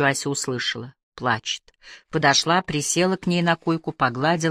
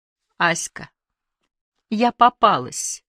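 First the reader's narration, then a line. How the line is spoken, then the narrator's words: Sobbing reply. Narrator (Russian): сквозь рыдание ответила Люда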